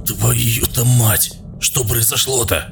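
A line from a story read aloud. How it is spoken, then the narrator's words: Frightened stammering babble. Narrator (Russian): Заикаясь от волнения и страха, лепетал Хрипун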